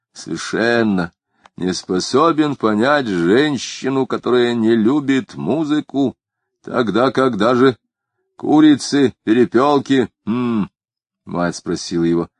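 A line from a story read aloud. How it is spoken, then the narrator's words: Quiet sighing grumble. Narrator (Russian): Вздохнув, он добавил негромко, ворчливо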